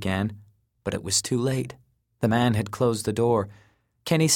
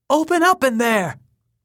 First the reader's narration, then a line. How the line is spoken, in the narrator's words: Kenny demanded at the top of his lungs